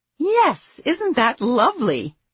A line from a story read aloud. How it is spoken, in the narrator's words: Abby said in a sort of cheerleader tone